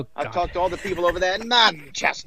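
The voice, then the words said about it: Put-on Manchester accent. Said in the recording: “Nice accent. Nice accent, by the way, but nice accent. Nice accent.”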